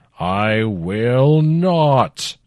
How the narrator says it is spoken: the Dybbuk roared

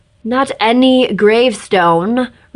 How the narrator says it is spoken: Reshka shouted

